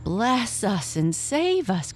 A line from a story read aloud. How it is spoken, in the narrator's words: cried Mrs